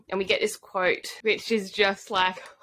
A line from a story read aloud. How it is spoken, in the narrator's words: Aelin chuckled